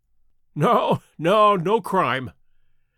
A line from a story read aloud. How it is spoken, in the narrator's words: said Sherlock Holmes, laughing